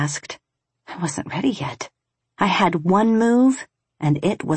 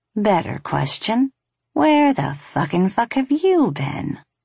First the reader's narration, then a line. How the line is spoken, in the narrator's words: Her tone was pleasant, well-modulated, but she was angry, all right, seething with it just under her skin